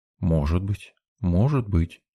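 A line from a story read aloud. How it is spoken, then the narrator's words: Mumbled. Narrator (Russian): пробормотал я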